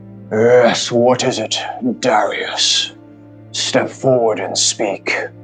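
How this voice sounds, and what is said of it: Deep, echoing character voice. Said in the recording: “deep voice ... this voice kind of echoes around this hall”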